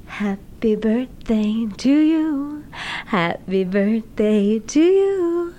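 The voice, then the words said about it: Breathy Marilyn Monroe-style singing impression. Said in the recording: “I have a big obsession with Marilyn, and I do a really good impersonation.”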